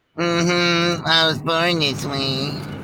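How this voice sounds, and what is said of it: Put-on fake voice. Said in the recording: “Why are you talking like that? ... you got a fake voice.”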